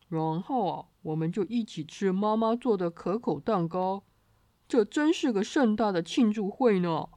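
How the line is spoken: Laughing heartily. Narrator (Chinese): 爸爸哈哈大笑，说

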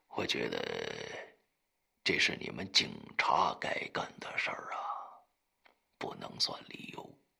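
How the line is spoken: Flustered mumble. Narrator (Chinese): 裘奇憋红了脸，喃喃地说

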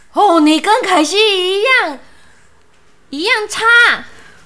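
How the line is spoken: Angry shout. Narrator (Chinese): 达娜对守门员怒吼

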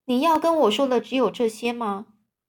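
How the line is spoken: Plain. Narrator (Chinese): 万次郎就说

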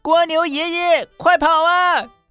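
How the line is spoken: Panicked shout. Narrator (Chinese): 兔子慌张地大叫

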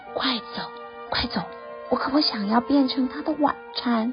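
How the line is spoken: Low, urgent voice. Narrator (Chinese): 他低声地说

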